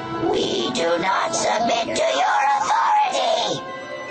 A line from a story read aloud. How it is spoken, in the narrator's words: It screamed